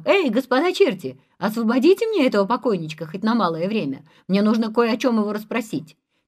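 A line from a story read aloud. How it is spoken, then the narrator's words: Shouted. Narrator (Russian): Андрей и закричал чертям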